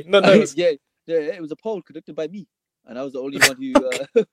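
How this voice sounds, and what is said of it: Birmingham (Brummie) English accent. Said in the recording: “a beautiful Brummy himself ... this accent ... how we speak like this”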